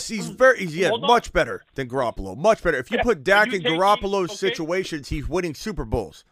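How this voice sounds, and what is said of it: Usual voice. Nothing is said of it.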